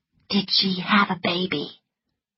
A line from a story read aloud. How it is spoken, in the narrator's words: whispered Scarlet